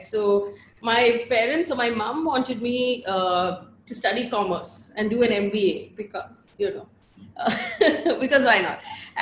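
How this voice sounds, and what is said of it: Bangalore Indian English accent. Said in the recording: “I grew up completely in Bangalore. You can hear it in my accent.”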